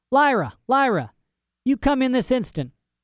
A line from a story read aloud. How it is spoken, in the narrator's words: someone began to shout from below